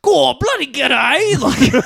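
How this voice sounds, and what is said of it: Exaggerated put-on Australian accent. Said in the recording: “an Australian voiced person ... that accent”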